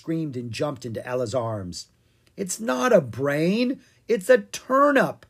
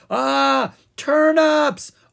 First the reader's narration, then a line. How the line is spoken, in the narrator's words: Owen screamed